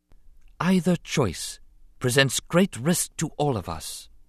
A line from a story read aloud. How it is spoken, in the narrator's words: she said softly